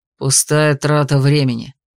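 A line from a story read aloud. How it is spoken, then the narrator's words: Growled. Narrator (Russian): рыкнул Ньюман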